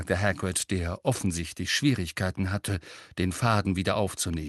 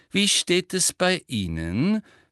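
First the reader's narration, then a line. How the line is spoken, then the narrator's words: Loud ringing voice. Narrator (German): fragte Professor Umbridge mit schallender Stimme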